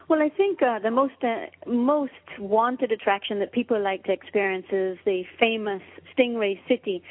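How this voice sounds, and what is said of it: Caymanian island accent. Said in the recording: “sounds so much prettier when you say it ... We have that accent right on the end where we go Cayman,”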